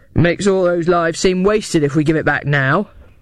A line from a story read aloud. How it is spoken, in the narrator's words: added Stamford gruffly